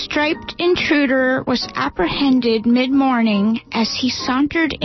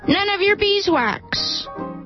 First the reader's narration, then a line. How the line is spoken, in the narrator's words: he shouted